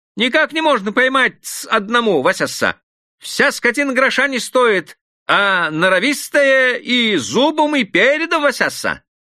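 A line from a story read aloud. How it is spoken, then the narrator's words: Cheerful smiling reply. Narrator (Russian): отвечал Юхванка, улыбаясь очень весело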